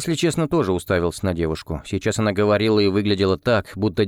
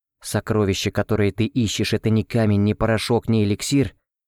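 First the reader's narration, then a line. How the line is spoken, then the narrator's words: Even, level voice. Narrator (Russian): все тем же ровным голосом произнесла Ольга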